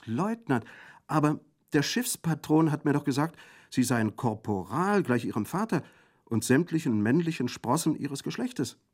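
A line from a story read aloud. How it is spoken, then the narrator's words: Exclaiming. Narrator (German): rief Sir Thomas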